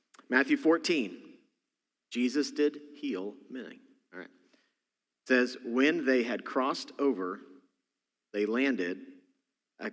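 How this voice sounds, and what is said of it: Texas accent. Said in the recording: “my Texas accent, because I'm from Texas originally, comes out ... my Texas accent sometimes, so there it is coming out”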